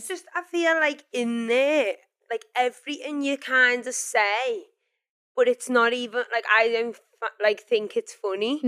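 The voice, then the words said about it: Scouse accent. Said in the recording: “I'm going to need some subtitles. It's a Scouse accent. I love the Scouse accent.”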